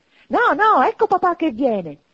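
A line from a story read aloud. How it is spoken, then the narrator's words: Children shouting together. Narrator (Italian): gridarono i 2 piccoli Cratchit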